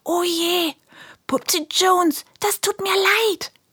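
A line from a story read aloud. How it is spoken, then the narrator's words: Whisper. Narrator (German): flüstert Helene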